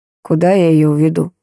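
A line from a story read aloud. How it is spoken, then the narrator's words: Tired, curt. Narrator (Russian): бросил устало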